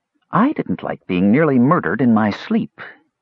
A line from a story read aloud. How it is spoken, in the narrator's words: his twin snapped